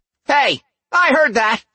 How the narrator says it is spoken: Cora snapped

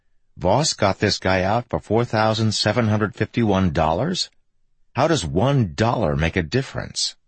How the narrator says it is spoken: howling with laughter

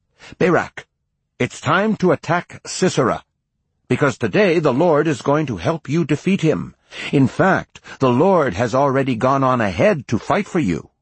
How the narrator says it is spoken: Deborah shouted

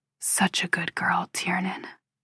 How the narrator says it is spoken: he whispers

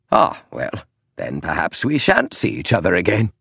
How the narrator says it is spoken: Holmes said almost lightly, almost merrily

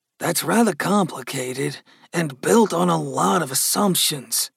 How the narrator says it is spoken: Gus grumbled

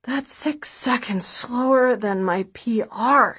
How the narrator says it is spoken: she says, gasping for air

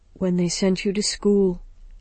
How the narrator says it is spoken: he said softly

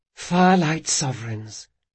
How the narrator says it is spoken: whispered Sabitha

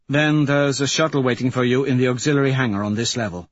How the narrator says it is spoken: Mustang says evenly

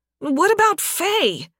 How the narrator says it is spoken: Vera shouted

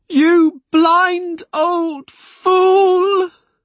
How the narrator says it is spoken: Molly shrieked after her husband, and the flung words rattled against me like stones

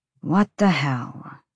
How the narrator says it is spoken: she muttered

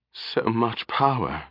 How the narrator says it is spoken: she whispered suddenly

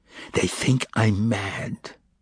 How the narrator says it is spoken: he whispered, and tears like drops of wax flowed from his eyes

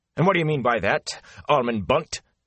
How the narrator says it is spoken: asked sharply

